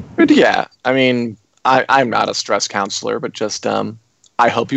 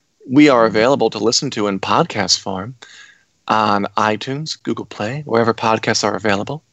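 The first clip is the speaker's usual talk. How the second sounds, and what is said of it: Calm, soothing voice. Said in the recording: “I'm going to talk in this calming voice for the rest of the podcast. So you're sent off in a good, chill mood.”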